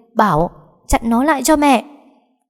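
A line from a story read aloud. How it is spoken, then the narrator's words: Screaming. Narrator (Vietnamese): Bà ta liền gào lên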